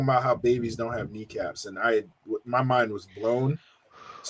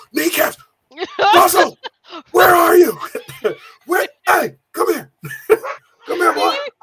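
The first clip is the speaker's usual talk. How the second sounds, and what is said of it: Gruff stereotypical dad voice. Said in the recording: “the dad voice”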